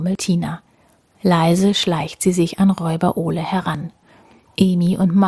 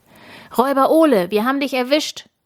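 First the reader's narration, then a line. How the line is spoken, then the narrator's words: Loud call. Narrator (German): ruft Tina laut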